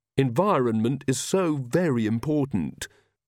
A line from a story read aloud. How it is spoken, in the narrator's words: said Magrat solemnly